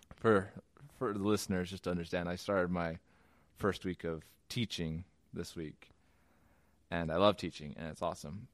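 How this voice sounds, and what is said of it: Lower, zombie-like tired voice. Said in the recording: “my voice is a little lower and more zombie-like than normal”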